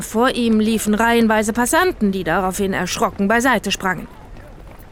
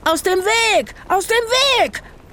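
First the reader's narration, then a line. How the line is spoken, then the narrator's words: Scream. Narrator (German): schrie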